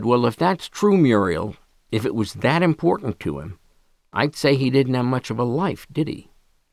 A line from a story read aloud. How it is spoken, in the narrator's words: asked calmly